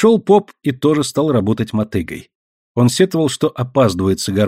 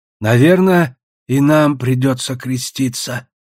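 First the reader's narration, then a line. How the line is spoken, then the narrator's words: Sad old men. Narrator (Russian): печально говорили старики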